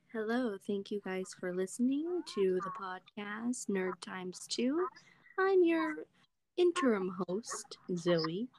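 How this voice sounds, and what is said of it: Put-on podcast host voice. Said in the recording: “This is my podcast voice.”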